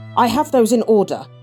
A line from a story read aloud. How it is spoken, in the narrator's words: Gretchen said sharply